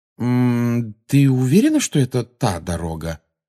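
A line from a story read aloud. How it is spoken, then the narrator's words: Meaningful questioning tone. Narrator (Russian): спросил он ее многозначительным тоном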